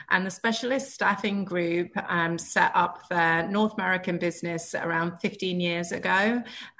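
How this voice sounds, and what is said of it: British accent. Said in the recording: “You can probably tell from my accent that I'm not from here, originally from the UK.”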